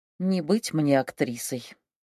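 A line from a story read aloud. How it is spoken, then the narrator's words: Sad wry chuckle. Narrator (Russian): грустно усмехнулась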